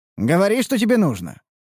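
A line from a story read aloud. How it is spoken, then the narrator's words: Smirking grunt. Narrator (Russian): хмыкнул я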